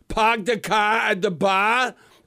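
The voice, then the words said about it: Mock Boston accent, dropped R's. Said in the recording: “Is there an R in the Boston language?”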